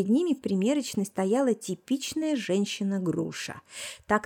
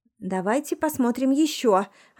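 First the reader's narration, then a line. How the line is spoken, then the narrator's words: Offended lady snorting. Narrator (Russian): обиженно фыркнула дама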